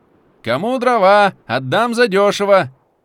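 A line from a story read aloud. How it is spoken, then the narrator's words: Shouting. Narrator (Russian): кричал один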